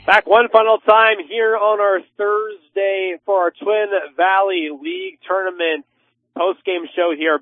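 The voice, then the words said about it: Slightly hoarse, strained voice. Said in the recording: “I'm losing my voice a little bit here as this week goes on ... Came in a little bit sick to it”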